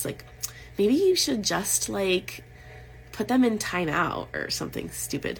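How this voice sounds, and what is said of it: Valley Girl voice. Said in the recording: “I like go to my Valley Girl voice.”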